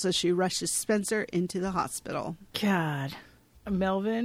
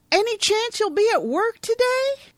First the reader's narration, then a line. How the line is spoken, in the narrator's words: Melvin yells after Carol